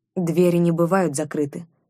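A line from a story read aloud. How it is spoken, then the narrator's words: Calm, elder. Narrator (Russian): спокойно отозвался старейшина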